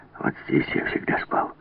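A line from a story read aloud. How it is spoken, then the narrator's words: Whispering. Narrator (Russian): прошептал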